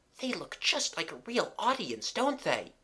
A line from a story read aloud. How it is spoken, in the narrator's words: whispered Mabel